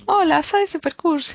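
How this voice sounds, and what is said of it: Silly affected girlish voice. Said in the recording (Spanish): “Le ponen una voz de niña tonta ... el doblaje español es como...”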